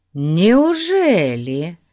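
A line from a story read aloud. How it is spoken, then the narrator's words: Mocking question. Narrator (Russian): насмешливо спросил инспектор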